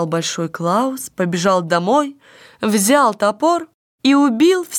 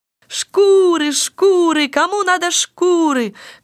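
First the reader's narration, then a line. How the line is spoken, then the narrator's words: Street hawker's shouting. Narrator (Russian): кричал он по улицам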